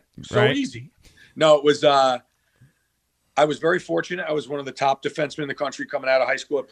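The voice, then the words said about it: New York accent. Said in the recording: “It's New York's team, man. ... Listen to my accent.”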